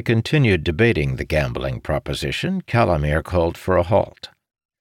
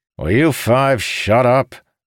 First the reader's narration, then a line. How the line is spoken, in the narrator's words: Mirrodin barked